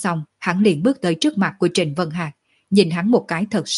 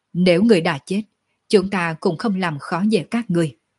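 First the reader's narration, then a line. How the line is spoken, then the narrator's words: Disappointed sigh. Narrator (Vietnamese): Sở Dương thất vọng thở dài một tiếng nói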